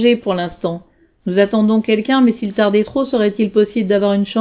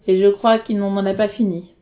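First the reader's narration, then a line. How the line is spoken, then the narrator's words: Sighing. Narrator (French): soupira Salim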